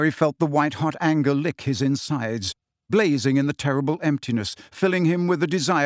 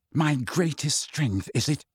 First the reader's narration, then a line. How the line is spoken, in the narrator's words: said Harry, his voice shaking